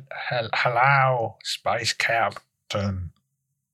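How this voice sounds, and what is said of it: Put-on Uzbek accent. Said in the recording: “It was Uzbekistan. Very well done. Not a lot of people know that accent.”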